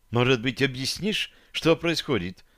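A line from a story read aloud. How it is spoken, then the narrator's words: Timid, fearful, hopeful question. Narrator (Russian): робко поинтересовалась Таша, наблюдая за мной со сложной смесью страха и непонятной надежды на лице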